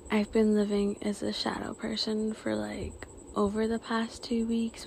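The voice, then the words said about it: Tired-sounding voice. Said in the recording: “If you think I sound tired, I am.”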